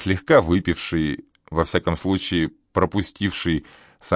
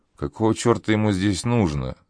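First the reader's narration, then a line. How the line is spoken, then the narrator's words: Grumbled, feigning innocence. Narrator (Russian): Буркнул Шепсель, словно еще минуту назад не собирался грабить старика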